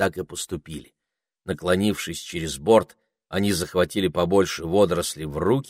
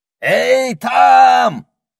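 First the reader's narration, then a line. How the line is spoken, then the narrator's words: Parrot yelling. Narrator (Russian): заорал попугай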